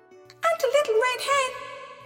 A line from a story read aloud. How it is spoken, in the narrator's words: screamed the other two